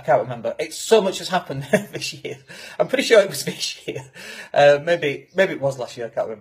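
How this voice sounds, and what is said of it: Yorkshire English accent. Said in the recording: “my accent in particular, because we come from Yorkshire and we all sound like we're about to mug you”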